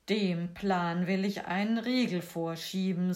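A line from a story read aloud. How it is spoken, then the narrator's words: Plain. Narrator (German): sagte das Schneiderlein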